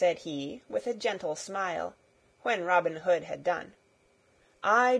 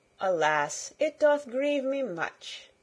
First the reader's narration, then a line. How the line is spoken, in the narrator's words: said the other